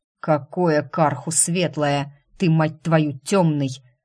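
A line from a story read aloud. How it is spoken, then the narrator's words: Growled. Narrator (Russian): рыкнул Эриан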